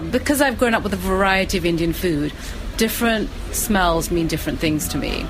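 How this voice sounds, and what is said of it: British (UK) accent. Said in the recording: “She is from the UK, as you may pick up by her accent.”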